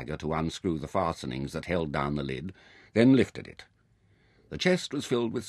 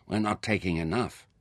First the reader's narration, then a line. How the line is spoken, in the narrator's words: Merin grumbled